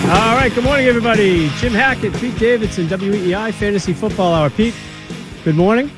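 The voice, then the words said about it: Boston accent. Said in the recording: “if you ever need someone with a Boston accent, let me know. I'm like, I think I got that one covered... I've been trying to shake it, for a long time. It's stuck.”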